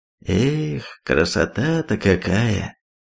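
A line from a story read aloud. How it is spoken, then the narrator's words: Drawl. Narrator (Russian): протянул он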